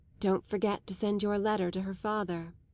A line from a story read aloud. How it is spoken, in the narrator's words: Isabel murmured gently